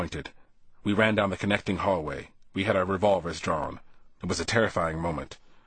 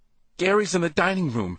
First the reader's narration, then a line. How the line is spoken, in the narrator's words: a second woman standing over a blender said in a trembling voice